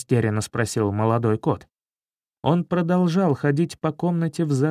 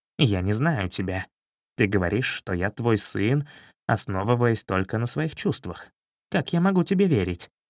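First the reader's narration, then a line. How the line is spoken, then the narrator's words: Unfriendly voice. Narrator (Russian): Златобров неприветливым голосом сказал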